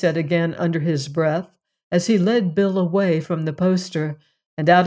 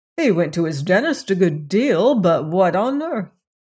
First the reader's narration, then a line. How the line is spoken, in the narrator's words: Anthony laughed a third time